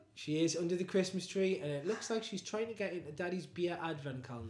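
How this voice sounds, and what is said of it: Strong Newcastle accent. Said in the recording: “anybody who's not from Newcastle ... We have a very deep accent ... we say things slightly different”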